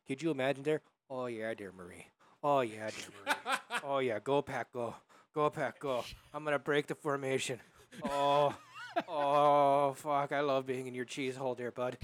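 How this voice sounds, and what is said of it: Put-on Wisconsin accent. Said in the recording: “accent I'm going to give is this one, that Wisconsin accent.”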